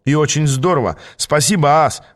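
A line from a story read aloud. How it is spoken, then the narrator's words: Exclaimed. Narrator (Russian): воскликнул я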